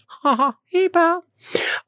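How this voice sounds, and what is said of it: Mickey Mouse voice impression. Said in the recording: “does the voice of Mickey”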